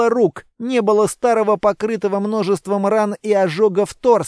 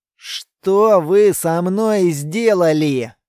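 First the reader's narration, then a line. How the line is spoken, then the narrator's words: Gloomy question. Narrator (Russian): мрачно спросил Тар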